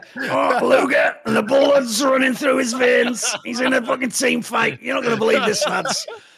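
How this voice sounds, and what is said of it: Growling gravelly caster voice, Red Eye impression. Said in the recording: “do a Red Eye impersonation ... you did sort of go into that graveling voice ... It's the growling. It's the growling.”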